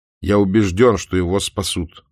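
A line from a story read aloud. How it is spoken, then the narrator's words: Loud. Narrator (Russian): громко заговорил Спарк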